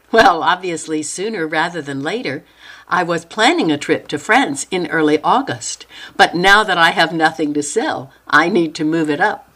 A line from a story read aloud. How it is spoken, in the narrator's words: Noelle laughed and said